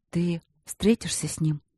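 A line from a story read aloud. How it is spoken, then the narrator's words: Muffled mumble, wife. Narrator (Russian): глухо пробормотала супруга ему в грудь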